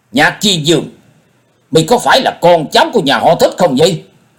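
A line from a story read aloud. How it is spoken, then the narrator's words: Raised voice, asking. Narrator (Vietnamese): Dân Hư trầm tư một chút, ông cao giọng hỏi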